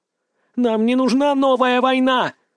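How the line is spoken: Shrieking woman. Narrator (Russian): визжала женщина

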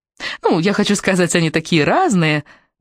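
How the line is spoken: Cooing. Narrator (Russian): проворковала Наоми

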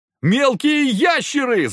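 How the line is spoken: Yell of fright and relief. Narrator (Russian): завопил Захар, умудрившись объединить в голосе испуг и облегчение

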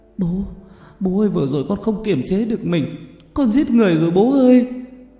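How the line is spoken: Wailing, sobbing. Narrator (Vietnamese): Cô gào khóc

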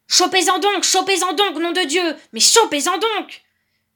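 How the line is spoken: Distant roar. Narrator (French): rugissait Lebrac, de loin

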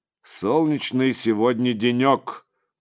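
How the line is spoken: Deep bass voice, priest. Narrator (Russian): пробасил отец Егорий

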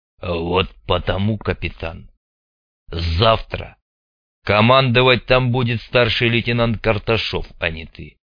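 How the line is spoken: Angry, through gritted teeth. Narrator (Russian): зло процедил Хворостин

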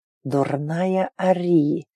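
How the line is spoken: Quiet growl. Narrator (Russian): Тихо прорычал он

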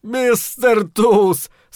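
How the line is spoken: Forced out through laughter. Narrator (Russian): сквозь смех выдавил Дроуган

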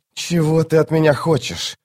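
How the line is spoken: Desperate hiss. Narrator (Russian): отчаянно зашипел Крокус

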